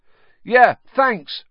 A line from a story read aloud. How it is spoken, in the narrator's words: Ron shouted over his shoulder